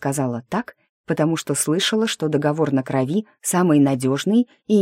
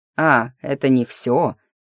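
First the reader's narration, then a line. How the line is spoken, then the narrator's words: Snort. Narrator (Russian): хмыкнул Дрей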